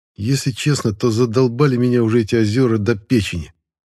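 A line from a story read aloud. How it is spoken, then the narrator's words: Rather angry. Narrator (Russian): достаточно зло сообщил нам Аркаша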